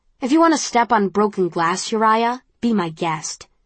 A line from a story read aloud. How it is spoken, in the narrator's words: she snaps